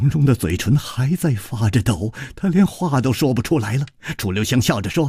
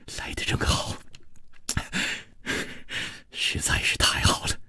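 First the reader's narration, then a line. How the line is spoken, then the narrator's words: Gentle, soft. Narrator (Chinese): 楚留香 柔声说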